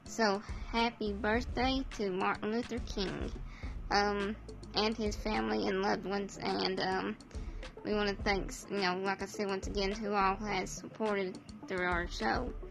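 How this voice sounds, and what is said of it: Strained, failing voice. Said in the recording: “I can't talk very well tonight. My voice is kind of giving out on me.”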